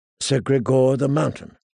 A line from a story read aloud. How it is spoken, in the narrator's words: she said softly